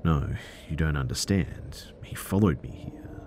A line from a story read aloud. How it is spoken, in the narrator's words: And I whispered, still out of breath